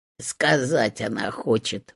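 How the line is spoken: Muttering hut. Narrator (Russian): буркнула избушка

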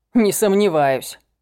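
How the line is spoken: Snort. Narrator (Russian): хмыкнул я

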